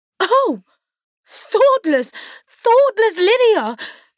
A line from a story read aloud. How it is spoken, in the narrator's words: cried Elizabeth